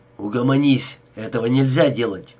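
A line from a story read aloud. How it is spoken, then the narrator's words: Angry. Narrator (Russian): Джо повторил сердито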